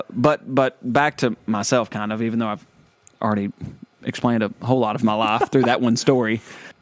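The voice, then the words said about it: Southern American accent. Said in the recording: “Look, I'm proud of my accent. ... We're a lot of Southerners get made fun of because of our accent.”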